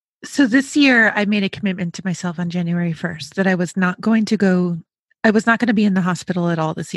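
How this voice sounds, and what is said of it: Slightly hoarse, froggy voice. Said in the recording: “I have a frog in my throat right now, but I am not sick”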